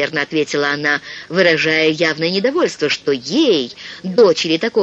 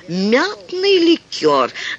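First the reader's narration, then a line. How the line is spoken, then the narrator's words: Pompous tone. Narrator (Russian): таким важничающим тоном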